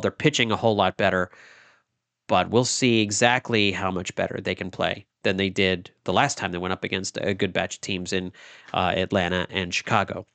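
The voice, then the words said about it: Slightly congested, sick-sounding voice. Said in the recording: “As you can hear, I've got a little bit of a cold,”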